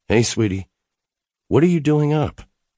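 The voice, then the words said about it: Calm, soothing voice. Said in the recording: “in my calmest voice,”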